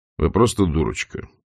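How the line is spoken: Decisive, rude. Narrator (Russian): решительно, грубо сказал он

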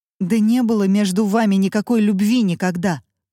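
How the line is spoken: Woman shouting. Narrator (Russian): выкрикнула и Мармеладова

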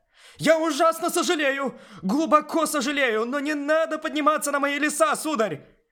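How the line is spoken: Shouted. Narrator (Russian): Прокричав это, маляр

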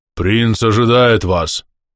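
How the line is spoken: Booming voice from helmet. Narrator (Russian): прогудел шлем пешего рыцаря

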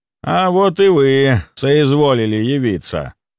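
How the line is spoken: Grumble. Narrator (Russian): Проворчал он

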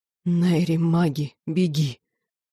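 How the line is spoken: Strained hiss. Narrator (Russian): прошипел брат, с трудом сохраняя способность говорить

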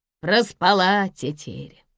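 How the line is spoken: Snorting, fat man. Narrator (Russian): фыркнул толстый мужик с первого сиденья

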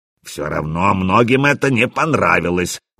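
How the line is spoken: Bear cub grumbling. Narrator (Russian): буркнул медвежонок

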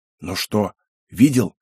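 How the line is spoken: Loud whisper. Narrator (Russian): громким шепотом произнес Акену

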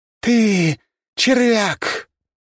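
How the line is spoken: Loud shout. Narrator (Russian): громко крикнула Белла

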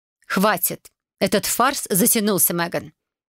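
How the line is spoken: Icy. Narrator (Russian): Ледяным тоном произнесла мама

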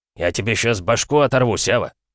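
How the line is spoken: Threatening growl. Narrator (Russian): прорычал Колян

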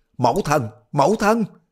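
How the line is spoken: Sudden cry. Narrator (Vietnamese): bỗng nghe Đoàn Dự la lên

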